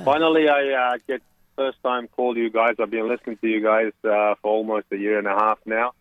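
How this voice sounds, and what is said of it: Australian accent, slightly South African. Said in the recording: “my Aussie accent ... I'll probably sound like South African a little bit these days”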